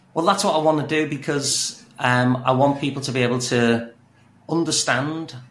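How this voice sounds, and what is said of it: Speaks with a noticeable accent. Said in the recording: “you have an amazing accent”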